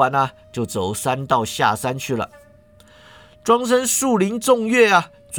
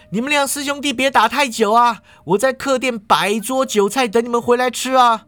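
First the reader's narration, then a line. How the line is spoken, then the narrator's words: Calling out into distance. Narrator (Chinese): 孙红尘对着黑漆漆的树林喊道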